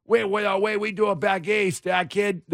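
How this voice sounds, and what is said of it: Mixed put-on East Coast accents. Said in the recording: “That's a conglomeration of all of the accents.”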